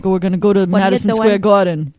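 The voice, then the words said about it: Put-on New York accent. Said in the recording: “New Yorkers would be like”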